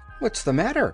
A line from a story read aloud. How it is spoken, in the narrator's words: called the Tin Woodman anxiously